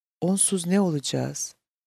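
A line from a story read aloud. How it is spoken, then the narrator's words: Whispered. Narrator (Turkish): diye fısıldadı Meredith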